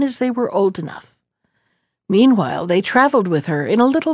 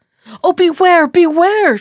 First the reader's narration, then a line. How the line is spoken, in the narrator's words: she cried